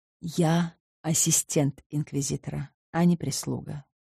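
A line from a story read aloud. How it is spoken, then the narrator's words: Calm reply. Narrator (Russian): ответил я спокойно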